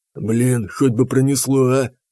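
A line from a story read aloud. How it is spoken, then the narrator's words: Whispered. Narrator (Russian): прошептал Танк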